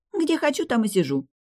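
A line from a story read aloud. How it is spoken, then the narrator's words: Snorted. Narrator (Russian): фыркнула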